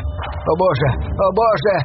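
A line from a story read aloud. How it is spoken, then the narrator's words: Shouting native. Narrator (Russian): кричал один из аборигенов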